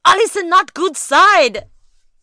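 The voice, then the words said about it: Poor imitation Russian accent. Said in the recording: “That was a terrible Russian accent,”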